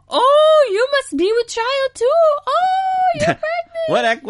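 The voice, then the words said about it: High-pitched old British lady voice. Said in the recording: “It's the old lady accent. ... It sounded a little... Like a little Asian. ... I was trying to do like an old, high-pitched lady British voice.”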